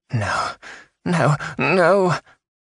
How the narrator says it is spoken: she moaned

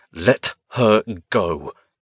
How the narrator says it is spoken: he growled

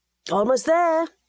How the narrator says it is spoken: Edgar called out

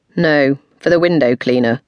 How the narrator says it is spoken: said coldly, without a trace of guilt

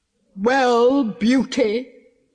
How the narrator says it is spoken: bellowed

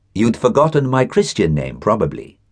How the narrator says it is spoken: said

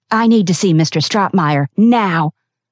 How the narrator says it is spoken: Elizabeth roared

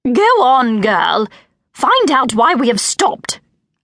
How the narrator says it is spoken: snapped the Countess

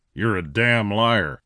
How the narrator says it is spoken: Clint snarled at him

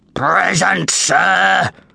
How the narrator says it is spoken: growled this huge gladiator

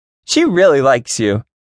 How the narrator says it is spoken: Katie said loudly

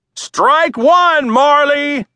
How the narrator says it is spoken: Daddy yelled

